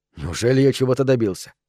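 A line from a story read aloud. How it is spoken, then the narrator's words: Deep sigh. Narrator (Russian): Дзен глубоко вздохнула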